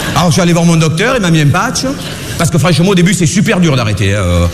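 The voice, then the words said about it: Marseille French accent. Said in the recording (French): “je suis né à Marseille, j'ai un accent”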